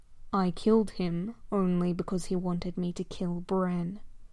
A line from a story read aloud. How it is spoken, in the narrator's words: Kylo slumps backwards and says quietly